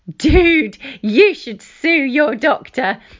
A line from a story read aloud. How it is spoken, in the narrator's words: he answered between giggles